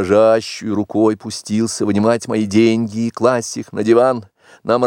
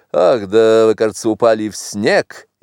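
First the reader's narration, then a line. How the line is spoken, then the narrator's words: Laughing. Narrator (Russian): он засмеялся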